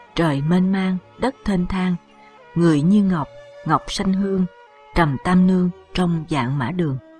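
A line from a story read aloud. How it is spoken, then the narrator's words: Soft smiling singing. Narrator (Vietnamese): Diệp Khai mỉm cười hát khẽ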